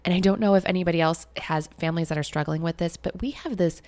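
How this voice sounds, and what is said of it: Congested, sick-sounding voice. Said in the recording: “you can tell today I am sick ... you can tell from my voice, I am getting over what seems to be like the world's longest cold ... lingering cold congestion cough thing ... I've just finally got my voice back ... This isn't what I normally sound like.”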